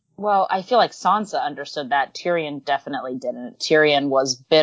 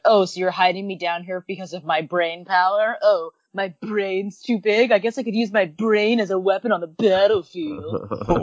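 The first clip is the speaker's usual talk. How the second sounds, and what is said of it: Tyrion impression, sounds like Stewie. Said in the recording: “Your impression of him makes me think of Tyrion as Stewie from Family Guy.”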